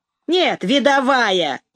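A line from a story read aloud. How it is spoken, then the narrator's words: Snide remark. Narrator (Russian): ехидно заметил Ромка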